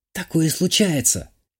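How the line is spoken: Barely audible. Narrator (Russian): чуть слышно произнесла Юля

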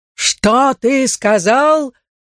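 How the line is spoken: Roar. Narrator (Russian): взревел

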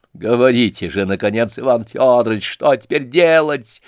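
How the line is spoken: Irritated shout. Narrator (Russian): раздражительно крикнула Лизавета Прокофьевна

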